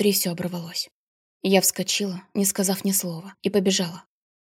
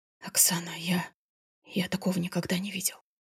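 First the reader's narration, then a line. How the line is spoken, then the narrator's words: Whispered. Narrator (Russian): шептал он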